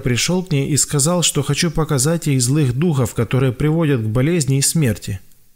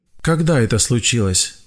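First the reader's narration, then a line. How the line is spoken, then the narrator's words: Gentle question. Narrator (Russian): мягко спросил я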